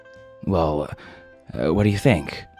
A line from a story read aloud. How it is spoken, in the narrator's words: Madison said, his voice anxious as if the answer mattered very much